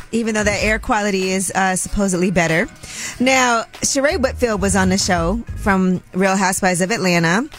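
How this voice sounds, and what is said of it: Hoarse, strained voice. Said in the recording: “I'm still losing my voice. ... Yes, that smoke.”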